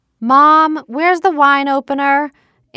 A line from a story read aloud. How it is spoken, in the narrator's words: Anna hollered from the living room